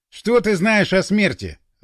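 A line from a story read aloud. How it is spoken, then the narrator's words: Angry. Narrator (Russian): зло сказал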